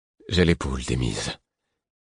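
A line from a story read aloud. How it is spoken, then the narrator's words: Choked, strangled voice. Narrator (French): répondis-je, d'une voix étranglée, la gorge nouée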